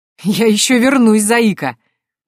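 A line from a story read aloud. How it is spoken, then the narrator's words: Laughing. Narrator (Russian): рассмеялся генерал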